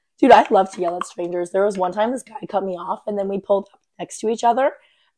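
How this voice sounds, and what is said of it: Hoarse voice from laryngitis. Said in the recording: “has laryngitis. ... It's from yelling at strangers.”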